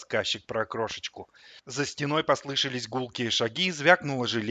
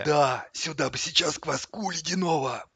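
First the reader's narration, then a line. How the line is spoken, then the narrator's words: Voiceless wheeze. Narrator (Russian): просипел кто-то без голоса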